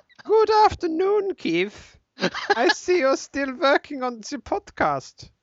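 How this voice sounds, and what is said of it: Exaggerated German accent. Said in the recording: “it's kind of an exaggerated German accent”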